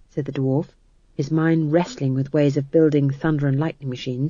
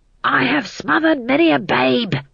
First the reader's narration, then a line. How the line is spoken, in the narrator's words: he hissed